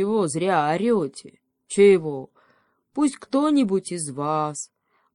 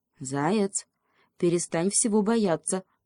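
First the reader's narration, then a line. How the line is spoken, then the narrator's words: Whisper. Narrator (Russian): шепнул ему еж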